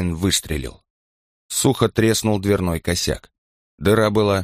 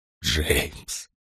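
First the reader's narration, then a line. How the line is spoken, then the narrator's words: Whispered. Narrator (Russian): прошептал он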